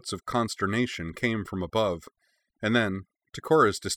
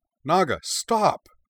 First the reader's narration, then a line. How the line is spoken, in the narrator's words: cried